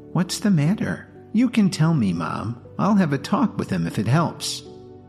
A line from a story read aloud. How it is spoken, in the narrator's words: Lily leaned in toward her mother and whispered